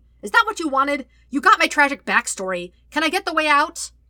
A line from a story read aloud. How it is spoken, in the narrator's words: hollering